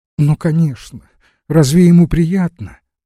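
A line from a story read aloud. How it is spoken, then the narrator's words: Tearful reply. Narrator (Russian): отвечала сквозь слезы княгиня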